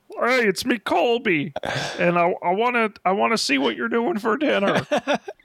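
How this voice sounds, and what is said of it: Impression of another person's voice. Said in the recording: “my Colby impression”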